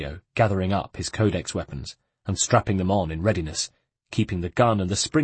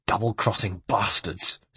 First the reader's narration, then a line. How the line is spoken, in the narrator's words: spat Caterina